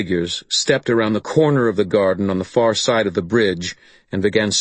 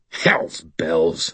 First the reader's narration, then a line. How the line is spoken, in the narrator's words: I snarled